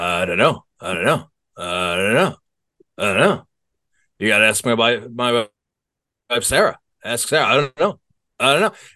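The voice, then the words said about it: Imitates another person's voice. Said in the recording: “here's my impression.”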